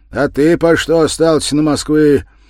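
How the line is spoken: Angry, anxious question. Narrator (Russian): Зло и тревожно… спросил

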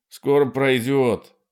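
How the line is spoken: Shouting. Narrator (Russian): крикнул Марти

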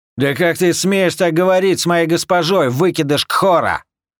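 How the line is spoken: Bodyguard's yell. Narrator (Russian): заорал телохранитель

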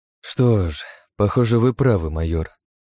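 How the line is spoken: Sigh. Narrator (Russian): вздохнул

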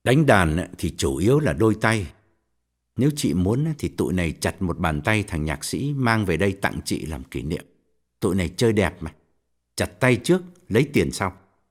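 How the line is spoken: Cold. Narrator (Vietnamese): Quân lạnh lùng bảo

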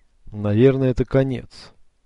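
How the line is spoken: Gloomy. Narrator (Russian): закончил Бартоломео мрачно

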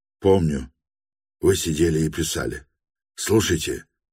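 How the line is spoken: Furious frantic whisper. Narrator (Russian): вскипел вдруг, исступленно, но говоря по-прежнему шепотом

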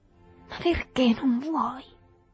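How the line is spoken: Whining. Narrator (Italian): piagnucolò

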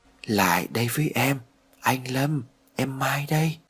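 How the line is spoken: Soft echoing voice. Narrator (Vietnamese): vang vọng một giọng nói nhỏ nhẹ ở bên tai

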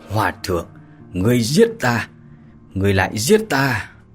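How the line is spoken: Hoarse dying voice. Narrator (Vietnamese): Người đó thì vẫn chưa chết, khàn khàn mà nói

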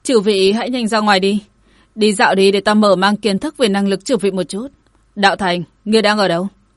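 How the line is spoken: Raised voice. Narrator (Vietnamese): cất cao giọng nói

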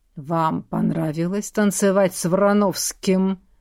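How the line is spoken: Deep bass question. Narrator (Russian): густым басом спросил Борис

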